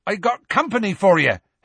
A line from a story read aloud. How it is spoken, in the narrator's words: Hagrid shouted